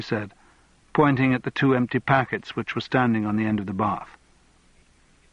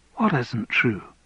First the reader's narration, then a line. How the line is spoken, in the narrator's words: asked Andrew gently